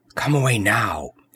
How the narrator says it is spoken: he whispered

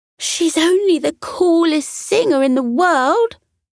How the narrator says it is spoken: Kira cried

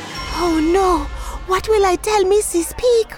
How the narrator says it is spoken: thought anxiously

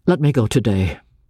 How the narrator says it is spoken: I said bitterly

